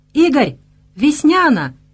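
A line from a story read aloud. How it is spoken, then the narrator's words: Joyful distant shouting. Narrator (Russian): радостно орал он издалека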